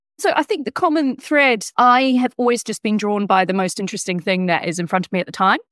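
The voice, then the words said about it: Mixed British and New Zealand accent. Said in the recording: “I feel half British, half Kiwi at this point. ... You sound it as well. ... my accent, I think I literally am half at this point.”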